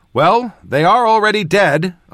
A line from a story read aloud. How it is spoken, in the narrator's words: I shouted back